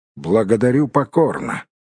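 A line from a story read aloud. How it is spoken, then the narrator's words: Gloomy. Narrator (Russian): мрачно произнес Бильбо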